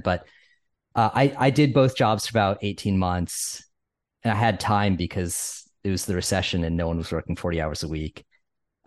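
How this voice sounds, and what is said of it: Northeastern US accent. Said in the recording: “my like Connecticut upbringing and my weird Northeast accent”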